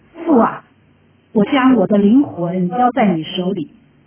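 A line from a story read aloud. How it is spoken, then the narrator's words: Loud cry. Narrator (Chinese): 耶稣大声喊着说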